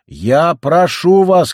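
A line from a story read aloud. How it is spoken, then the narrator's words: Shouting. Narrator (Russian): кричала Гильви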